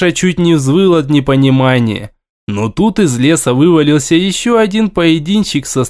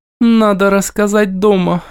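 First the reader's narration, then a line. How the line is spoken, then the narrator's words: Dull, indifferent voice. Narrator (Russian): глухо произнесла Инка, равнодушная ко всему, кроме небес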